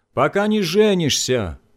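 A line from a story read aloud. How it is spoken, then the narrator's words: Shouted from another room, father. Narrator (Russian): закричал папа из гостиной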